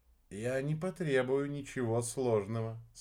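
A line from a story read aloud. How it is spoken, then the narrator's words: Calm. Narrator (Russian): спокойно ответил Арбидолочек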